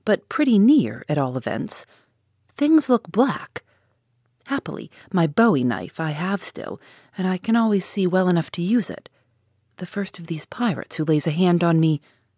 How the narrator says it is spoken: sharply replied the Canadian

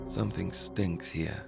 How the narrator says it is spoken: mumbled Capone

